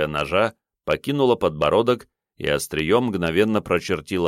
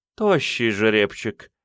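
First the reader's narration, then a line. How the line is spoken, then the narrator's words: Woman's purr. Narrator (Russian): промурлыкала женщина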